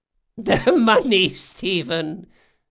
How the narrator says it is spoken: she chuckled

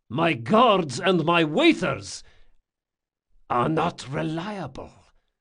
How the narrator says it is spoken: hissed Locke

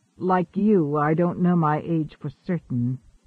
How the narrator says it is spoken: he answered slowly

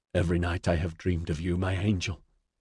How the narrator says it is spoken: he whispered into her ear

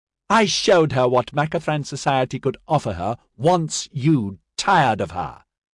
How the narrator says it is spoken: Ranelagh said triumphantly

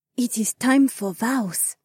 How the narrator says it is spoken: Heiwan whispered

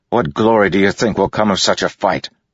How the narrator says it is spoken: Adolin spat back

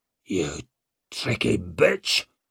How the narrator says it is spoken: snarled Oxal

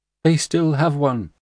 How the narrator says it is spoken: one little girl cried out

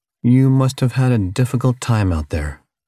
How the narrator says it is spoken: Captain Tor continued in his nicest voice

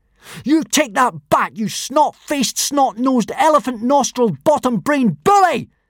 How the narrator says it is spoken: yelled Hiccup

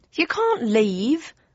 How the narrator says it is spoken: cried Aubrey Jam

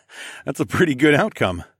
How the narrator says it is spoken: I laughed

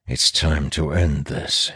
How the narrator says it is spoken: says under his breath, resolutely

